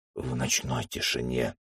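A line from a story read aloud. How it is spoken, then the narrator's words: Whisper through bitten lips. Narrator (Russian): Прошептал искусанными губами Джек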